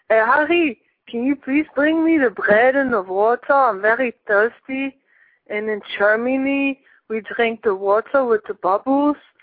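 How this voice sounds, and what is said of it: Exaggerated put-on German accent. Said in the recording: “German accent sounds more like this. ... That's how kind of like a German accent sounds like”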